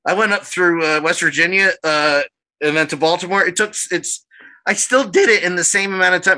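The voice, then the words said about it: Voice cracks high like a boy's. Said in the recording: “My voice cracked there like I was 12.”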